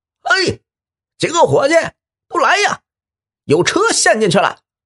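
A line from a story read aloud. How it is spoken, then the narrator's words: Old man shouting loudly. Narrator (Chinese): 老人就扯开嗓子喊了起来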